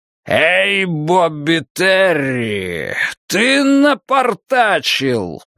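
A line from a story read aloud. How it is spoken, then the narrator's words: Roared, dark man. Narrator (Russian): проревел темный человек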